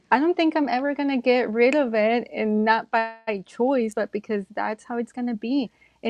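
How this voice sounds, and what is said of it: Non-native accented English. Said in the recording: “I'm so proud of my accent ... I am embracing that accent ... my accent is beautiful”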